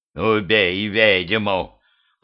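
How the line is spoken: Growled. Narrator (Russian): прорычал

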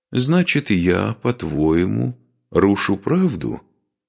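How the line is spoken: Calm question. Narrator (Russian): спокойно спросил великий князь

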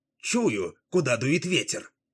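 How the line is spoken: Excited exclamation. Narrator (Russian): возбужденно воскликнул он

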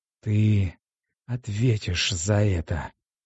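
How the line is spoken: Hiss. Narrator (Russian): прошипела она

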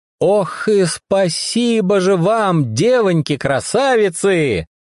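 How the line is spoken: Loud thanks. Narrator (Russian): громко поблагодарил Анфису и Ольгу Жан

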